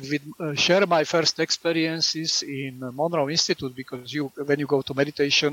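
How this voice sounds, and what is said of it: Speaks with a noticeable accent. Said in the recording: “with my accent ... that weird guy with the accent”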